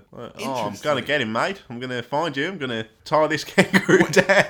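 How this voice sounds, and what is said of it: Put-on Australian accent. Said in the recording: “His little Aussie accent ... with the accent”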